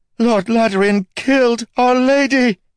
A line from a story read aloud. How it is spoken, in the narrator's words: screaming the words over and over